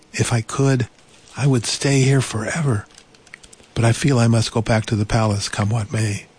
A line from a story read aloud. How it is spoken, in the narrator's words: Delphine sighed